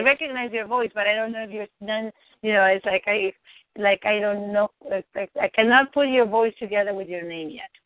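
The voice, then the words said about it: Speaks with a noticeable accent. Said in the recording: “you're very distinguishable, but you have an accent”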